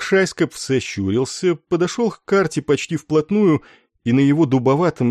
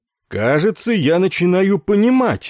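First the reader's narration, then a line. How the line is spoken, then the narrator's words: Exclaimed. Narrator (Russian): воскликнул он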